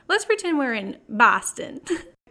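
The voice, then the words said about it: Brief put-on Boston accent. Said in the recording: “That's where my Boston accent begins and ends.”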